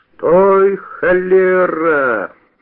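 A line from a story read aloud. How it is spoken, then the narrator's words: Shouted, bandit. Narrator (Russian): закричал бандит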